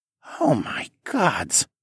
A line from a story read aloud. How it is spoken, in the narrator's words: Pyotr whispered